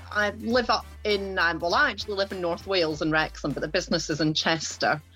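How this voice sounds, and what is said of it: Scottish accent. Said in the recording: “as you will tell from the accent, I am originally from Ayrshire in Scotland”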